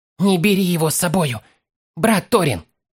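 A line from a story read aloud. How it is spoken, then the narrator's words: Quiet. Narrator (Russian): тихо сказал он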